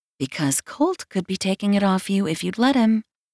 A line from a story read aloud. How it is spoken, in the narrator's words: my stupid mind whispers